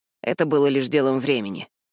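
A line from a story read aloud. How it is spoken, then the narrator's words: Mumbling. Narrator (Russian): бормочет Маунтбеттен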